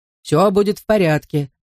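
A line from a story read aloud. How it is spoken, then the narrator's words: Plain. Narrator (Russian): сказал он мне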